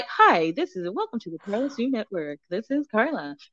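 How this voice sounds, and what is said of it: Sweet, polite voiceover voice. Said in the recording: “I'm just gonna do it in my nicest little voice”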